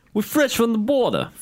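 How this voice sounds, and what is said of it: Decent put-on Brooklyn accent. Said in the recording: “he kind of had a Brooklyn accent ... That was a decent Brooklyn accent.”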